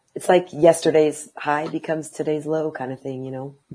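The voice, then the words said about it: Strained, fading voice. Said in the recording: “I feel like I'm losing my voice ... I'm going mute because I can't talk anymore”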